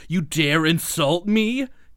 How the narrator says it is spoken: Calypso screams

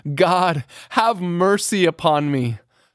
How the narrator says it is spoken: he cries from his inmost soul

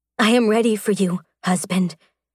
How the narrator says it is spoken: she told him huskily

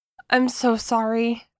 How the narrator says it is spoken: I stammer

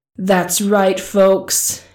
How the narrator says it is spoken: he screamed into his handy portable microphone

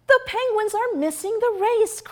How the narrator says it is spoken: cried Peg

